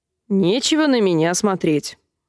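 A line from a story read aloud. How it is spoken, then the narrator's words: Snapped. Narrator (Russian): огрызнулся Крэб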